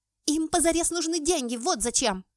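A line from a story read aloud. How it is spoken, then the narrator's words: Barked. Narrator (Russian): рявкнула Аня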